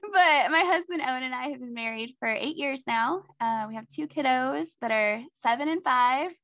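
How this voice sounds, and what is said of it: Slight Southern American accent. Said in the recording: “you might detect a little bit of that Southern accent.”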